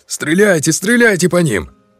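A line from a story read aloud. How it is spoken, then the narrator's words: Shouting. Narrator (Russian): При этом он кричал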